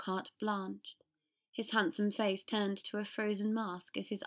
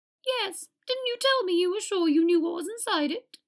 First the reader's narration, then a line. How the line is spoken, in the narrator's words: piped up Flitwick